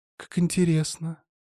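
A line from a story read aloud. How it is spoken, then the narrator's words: Detached voice. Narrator (Russian): отстраненным голосом произнесла Воронцова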